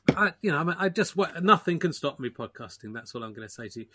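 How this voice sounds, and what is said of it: Slightly hoarse, losing voice. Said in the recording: “I'm slightly losing my voice. It's due. I've got COVID”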